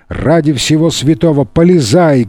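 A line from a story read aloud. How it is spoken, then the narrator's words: Angry shout. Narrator (Russian): гневно закричал начальник полиции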